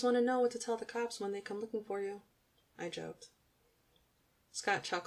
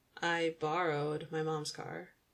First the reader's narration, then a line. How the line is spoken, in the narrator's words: Scott replied sarcastically